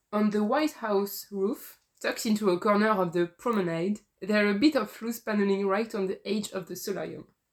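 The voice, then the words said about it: French-accented English. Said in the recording (French): “désolée pour mon accent anglais”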